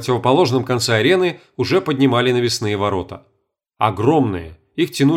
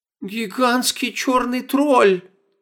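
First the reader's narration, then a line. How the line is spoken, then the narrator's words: Moaning. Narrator (Russian): застонала Стефания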